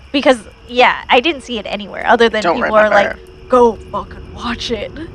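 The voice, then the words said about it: Imitates another person's voice. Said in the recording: “That was a great Nick Cage impression.”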